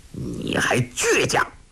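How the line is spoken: Angry. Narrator (Chinese): 术赤怒道

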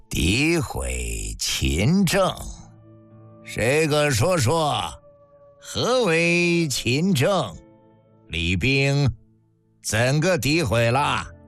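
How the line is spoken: Cold, soft question. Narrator (Chinese): 这冷冷一笑，轻轻一问

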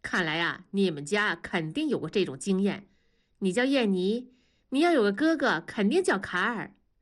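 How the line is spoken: Amused, laughing. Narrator (Chinese): 李天骄笑了，说

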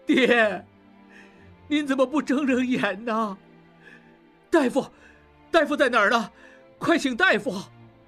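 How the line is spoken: Crying. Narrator (Chinese): 小马掌柜哭道

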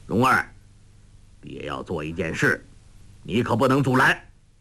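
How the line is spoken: Stern, harsh. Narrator (Chinese): 黄药师厉声道

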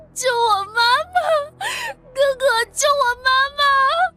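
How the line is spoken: Crying child pleading. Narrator (Chinese): 小男孩哭叫着求救

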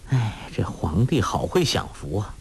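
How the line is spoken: Sighing. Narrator (Chinese): 郭靖叹道

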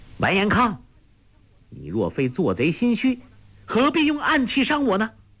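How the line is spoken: Shout. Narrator (Chinese): 黄蓉叫道

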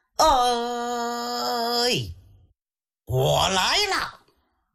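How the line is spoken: Loud shout. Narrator (Chinese): 他大喊一声

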